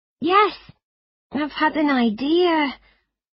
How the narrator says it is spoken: I began nervously

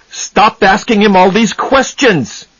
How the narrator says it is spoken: he shouted

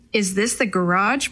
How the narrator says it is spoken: Maria asked

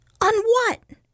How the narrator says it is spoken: snapped Peter

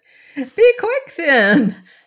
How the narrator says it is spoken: she cried

